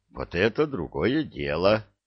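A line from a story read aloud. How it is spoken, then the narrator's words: Satisfied, slightly shaky mutter. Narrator (Russian): удовлетворенно пробормотал, голос слегка подрагивал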